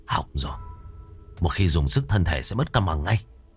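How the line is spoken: Low voice. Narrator (Vietnamese): anh Gầy nhỏ giọng

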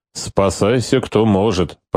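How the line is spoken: Grumbled. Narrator (Russian): проворчал Штубер

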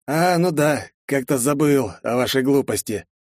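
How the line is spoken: Smirking snort. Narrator (Russian): хмыкнул он

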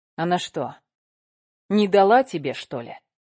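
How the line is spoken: Rude question. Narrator (Russian): грубо спросил Никита

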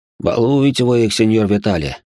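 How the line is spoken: Quiet low grumble. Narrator (Russian): пробурчал сидящий рядом со мной офицер, но так, чтобы этого не слышали гребцы

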